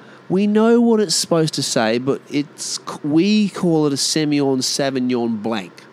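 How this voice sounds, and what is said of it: Usual voice. Nothing is said of it.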